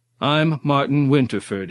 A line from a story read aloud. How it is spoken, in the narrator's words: he reaffirmed more loudly, trying to bluff his way out of whatever situation he had blundered into